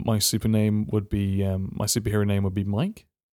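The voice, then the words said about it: Deep, tired voice. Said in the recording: “my voice is kind of deep”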